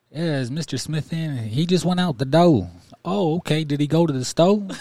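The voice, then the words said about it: Imitated Southern US accent. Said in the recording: “I would try my best to mimic their accent ... the people down south”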